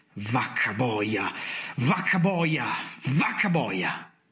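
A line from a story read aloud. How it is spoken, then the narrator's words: Man exclaiming again. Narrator (Italian): esclamò lui ancora una volta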